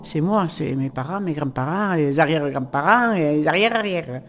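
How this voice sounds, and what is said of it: Regional French accent. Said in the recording (French): “mon accent, c'est mon accent”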